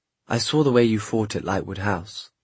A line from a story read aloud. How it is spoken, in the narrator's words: Gabriel Lightwood murmured